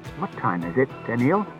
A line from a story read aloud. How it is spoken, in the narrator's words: asked Bailey